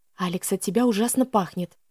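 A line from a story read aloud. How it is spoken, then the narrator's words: Whisper. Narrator (Russian): шепнула я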